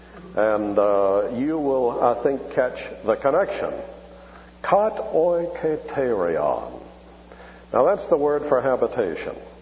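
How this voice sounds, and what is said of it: Southern American accent. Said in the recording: “I do it, of course, with a southern accent”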